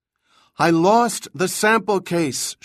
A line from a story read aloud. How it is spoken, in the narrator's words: shouted, the vibration of her voice transferring through the plastic